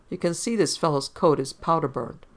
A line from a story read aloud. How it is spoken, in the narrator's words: The medical examiner's man said cheerfully